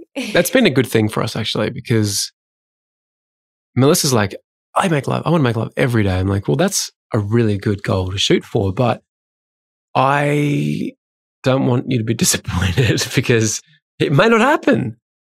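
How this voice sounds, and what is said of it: Slightly sick-sounding voice. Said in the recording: “I've been a bit under the weather. You may hear it in my voice.”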